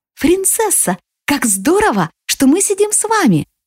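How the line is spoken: Joyful. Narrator (Russian): радостно говорит Сия

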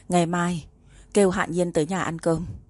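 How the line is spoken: Sighing woman. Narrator (Vietnamese): Bà thở dài một hơi, nói

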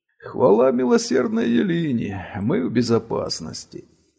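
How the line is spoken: Relieved sigh. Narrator (Russian): С облегчением вздохнул один из прохожих

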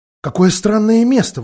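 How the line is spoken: Exclaiming. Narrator (Russian): воскликнула Люси

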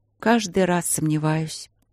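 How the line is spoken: Sad. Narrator (Russian): грустно сказала королева

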